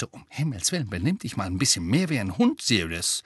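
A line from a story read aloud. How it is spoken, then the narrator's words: Hissing. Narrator (German): Weasley zischte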